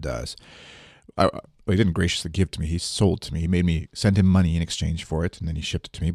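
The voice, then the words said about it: Congested, sick-sounding voice. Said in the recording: “I've got uh, a cold of some sort. You can probably hear it in my voice”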